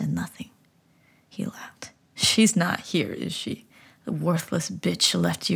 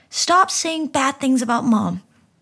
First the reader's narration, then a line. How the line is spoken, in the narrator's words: I shouted, my whole body trembling